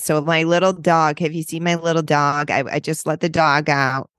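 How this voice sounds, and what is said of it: Exaggerated nasal Rochester New York accent. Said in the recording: “Rochester is very nasally. This is more how we talk up there.”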